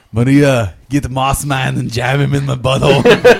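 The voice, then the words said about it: Imitates another person's voice. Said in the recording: “doing the Arnold Schwarzenegger voice”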